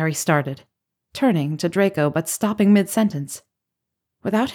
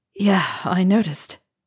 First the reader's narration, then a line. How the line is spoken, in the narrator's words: Harry said hoarsely